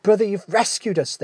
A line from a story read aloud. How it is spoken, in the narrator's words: they cried